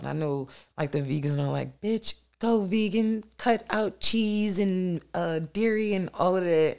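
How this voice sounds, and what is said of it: Congested, nasal voice. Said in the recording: “I have asthma and I have allergies... you're going to hear it in my voice, in my nasal cavity”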